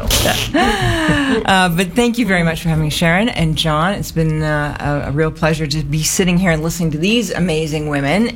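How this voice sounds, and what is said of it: Canadian English accent. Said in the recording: “I've got a funny accent because I'm Canadian, and I've been in Australia for 7 years, but it's not going away.”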